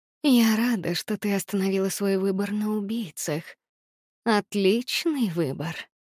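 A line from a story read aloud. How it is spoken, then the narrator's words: Whisper. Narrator (Russian): прошептала она мне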